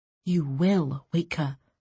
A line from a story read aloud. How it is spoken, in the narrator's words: Sabran whispered